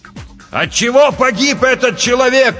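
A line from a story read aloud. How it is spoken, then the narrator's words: Shouting. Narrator (Russian): прокричал капитан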